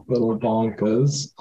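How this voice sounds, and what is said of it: Put-on British accent. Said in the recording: “I was just giving it a British accent for myself because I think it's fun.”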